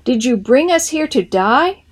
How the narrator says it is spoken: Heian, with his face in his hands, cried out to God

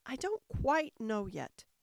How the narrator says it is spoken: Alice said very gently

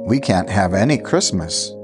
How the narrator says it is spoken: faltered

